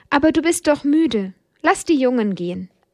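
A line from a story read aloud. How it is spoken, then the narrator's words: Plain. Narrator (German): antwortete sie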